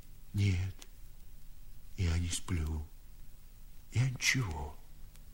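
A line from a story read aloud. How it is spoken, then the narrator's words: Old man, timid cough. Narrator (Russian): сказал старик и робко покашлял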